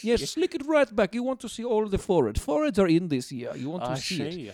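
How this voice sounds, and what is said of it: Put-on Russian-style accent. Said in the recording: “I'm not sure where my accent is from, but we will roll with ... Russia's a big place. ... I thought Georgians speak like that.”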